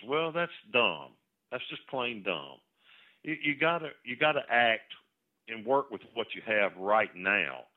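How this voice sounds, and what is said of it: Frustrated, exasperated tone. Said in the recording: “I'm frustrated. I think you can tell that in my voice”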